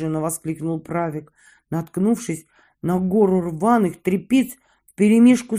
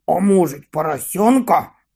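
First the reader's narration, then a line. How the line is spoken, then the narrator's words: Deep bass voice. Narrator (Russian): пробасил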